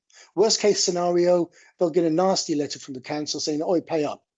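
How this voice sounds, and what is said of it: Birmingham (Brummie) English accent. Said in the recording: “you'll notice from my accent, I'm from Birmingham originally ... You're a Brummie.”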